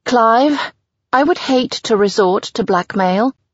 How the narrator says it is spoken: I say tightly

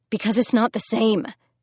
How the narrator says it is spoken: she snapped

